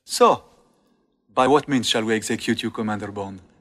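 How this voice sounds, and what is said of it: Speaks with a noticeable foreign accent. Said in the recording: “Love this guy's accent.”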